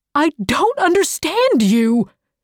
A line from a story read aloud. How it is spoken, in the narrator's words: he cried